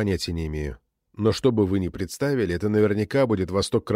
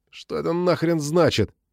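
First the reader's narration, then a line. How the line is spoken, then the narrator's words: Trembling voice. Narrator (Russian): дрожащим голосом спросил Видар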